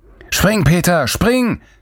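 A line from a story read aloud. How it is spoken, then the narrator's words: Roaring from afar. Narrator (German): brüllte Lorenz von der anderen Seite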